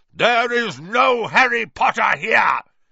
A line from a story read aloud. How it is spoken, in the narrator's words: he roared